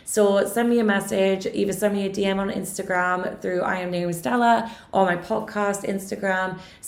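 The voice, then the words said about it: Hoarse, fading voice. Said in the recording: “my voice is totally disappearing”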